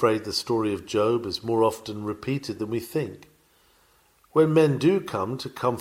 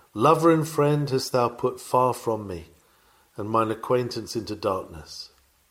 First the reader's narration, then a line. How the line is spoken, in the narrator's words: these unhappy ones are doomed to sigh out